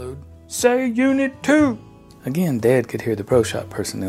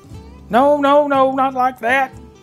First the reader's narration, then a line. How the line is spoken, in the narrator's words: George hollered